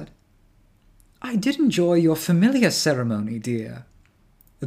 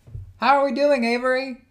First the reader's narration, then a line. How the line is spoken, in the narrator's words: Jude called out